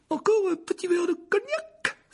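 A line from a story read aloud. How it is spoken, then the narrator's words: Pale frightened cry. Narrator (French): s'écria l'oncle Vernon, qui était devenu livide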